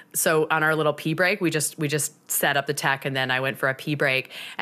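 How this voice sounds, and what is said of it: Raspy voice. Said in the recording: “my voice is extra raspy”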